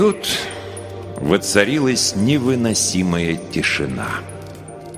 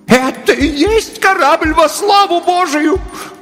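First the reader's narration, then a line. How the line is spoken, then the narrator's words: Horrified scream. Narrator (Russian): в ужасе закричала миссис Беллоуз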